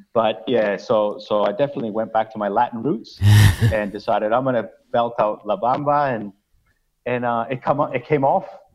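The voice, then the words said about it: Slight Chilean-Canadian accent. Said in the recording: “I'm Chilean born, but raised in Canada, so that's probably where you're picking up a bit of an accent.”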